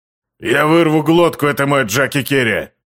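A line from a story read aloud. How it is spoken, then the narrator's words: Roaring. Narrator (Russian): взревел Трок Маварак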